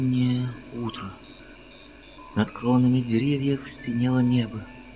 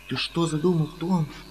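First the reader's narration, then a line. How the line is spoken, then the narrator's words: Frightened. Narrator (Russian): говорила Мадлен, испуганно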